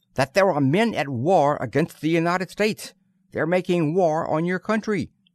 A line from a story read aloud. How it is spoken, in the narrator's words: said Murphy sharply